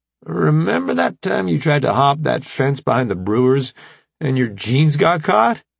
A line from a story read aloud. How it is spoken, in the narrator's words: Remy chuckled